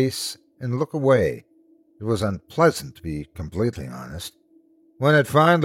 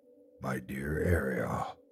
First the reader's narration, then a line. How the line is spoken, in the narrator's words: he said in a low tone